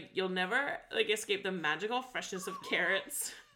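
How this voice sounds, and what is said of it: Extreme vocal fry character voice. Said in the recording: “I love this vocal fry, but like, to the extreme ... my impression”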